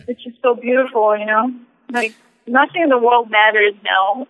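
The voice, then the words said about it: Choked-up emotional voice. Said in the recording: “all choked up”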